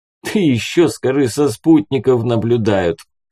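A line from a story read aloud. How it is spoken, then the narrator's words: Chuckling. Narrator (Russian): хохотнул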